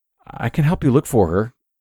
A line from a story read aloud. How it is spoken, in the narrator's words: stammered